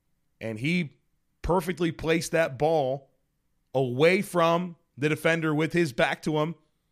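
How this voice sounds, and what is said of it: Slightly hoarse voice. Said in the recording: “my voice is a little hoarse because I was definitely doing my part to cheer on the Bills and be loud”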